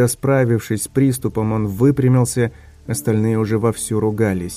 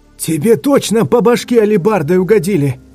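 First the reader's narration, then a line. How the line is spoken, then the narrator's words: Spluttering shout. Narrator (Russian): кричал, брызгая слюной, седьмой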